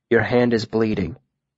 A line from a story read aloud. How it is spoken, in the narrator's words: Quoth said gently